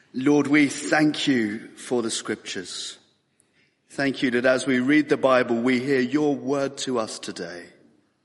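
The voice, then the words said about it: Slightly hoarse voice. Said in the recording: “excuse me if I sound a bit hoarse. I'm feeling fine, but I am a little bit hoarse.”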